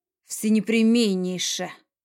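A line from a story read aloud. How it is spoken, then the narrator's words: Man's snort. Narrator (Russian): хмыкнул мужчина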